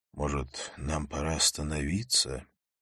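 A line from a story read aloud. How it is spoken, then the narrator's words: Muttering. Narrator (Russian): я пробормотал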